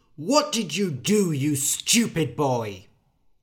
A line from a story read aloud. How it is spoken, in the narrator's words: The father said angrily